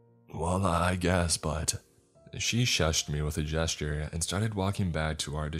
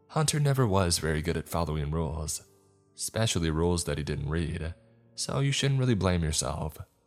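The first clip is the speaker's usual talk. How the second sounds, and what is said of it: Bright, cheerful voice. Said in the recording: “in a bright voice”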